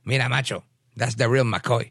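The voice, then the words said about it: Thick Puerto Rican accent. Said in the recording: “in his thick Puerto Rican accent”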